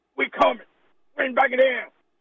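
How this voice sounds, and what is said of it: Imitates another person's voice. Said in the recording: “my Ed Orgeron impression ... That wasn't bad. That was not bad. ... Ed Orgeron impression.”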